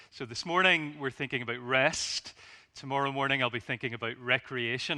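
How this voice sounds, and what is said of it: Northern Irish accent. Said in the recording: “As you'll know from my accent, I'm not from these parts. ... I'm based over in Northern Ireland.”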